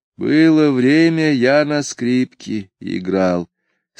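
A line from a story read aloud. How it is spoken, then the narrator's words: Sad. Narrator (Russian): сказал он грустно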